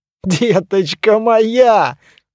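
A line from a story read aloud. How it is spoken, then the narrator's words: Laughing loudly. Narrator (Russian): расхохотался туман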